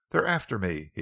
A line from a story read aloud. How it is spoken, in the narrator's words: he exclaimed